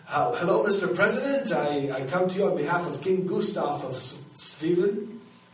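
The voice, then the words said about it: Put-on Swedish accent. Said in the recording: “You guys don't know what a Swedish accent is either”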